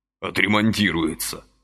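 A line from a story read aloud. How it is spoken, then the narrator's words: Through clenched teeth. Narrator (Russian): проговорил он сквозь зубы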